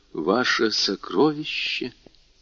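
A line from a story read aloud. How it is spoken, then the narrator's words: Whisper. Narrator (Russian): прошептал Дантес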